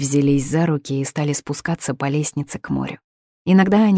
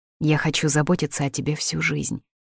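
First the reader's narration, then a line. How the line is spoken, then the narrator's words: Plain. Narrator (Russian): сказал Саша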